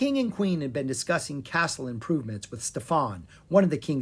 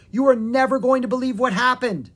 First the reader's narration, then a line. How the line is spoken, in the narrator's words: shouted Lucas